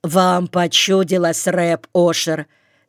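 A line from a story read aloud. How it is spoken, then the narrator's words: Angry repeat, lame man. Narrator (Russian): сердито повторил хромой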